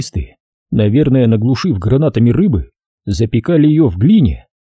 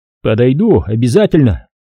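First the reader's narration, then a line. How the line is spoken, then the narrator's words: Shouted reply. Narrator (Russian): крикнул я в ответ танкистам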